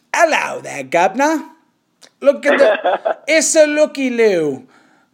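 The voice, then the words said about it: Put-on English accent. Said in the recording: “The Philly English accent.”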